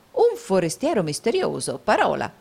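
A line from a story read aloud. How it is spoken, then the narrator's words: Exclaiming. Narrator (Italian): esclamò il baronetto Mulberry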